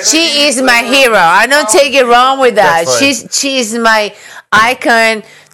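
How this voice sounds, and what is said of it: Accent like Sofia Vergara's. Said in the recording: “people tell me I'm sound like a Sofia Vergara. Why you have an accent? You sound like a Sofia Vergara.”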